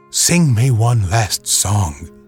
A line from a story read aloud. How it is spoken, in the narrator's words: he whispered